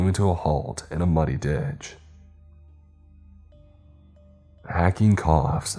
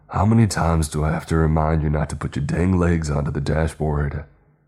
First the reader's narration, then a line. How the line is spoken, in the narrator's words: Stork yelled